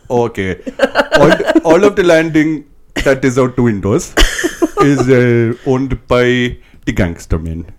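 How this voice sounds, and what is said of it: Put-on accent. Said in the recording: “back to the accent, please.”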